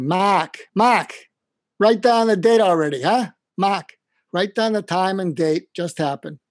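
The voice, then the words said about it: Boston Irish accent impression. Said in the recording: “I'm going to do my Mac imitation. He was an Irish Catholic from Boston.”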